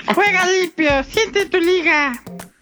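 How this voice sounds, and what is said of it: Child's voice. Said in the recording (Spanish): “voz de niño.”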